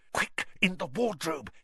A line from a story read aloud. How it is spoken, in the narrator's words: hissed Harry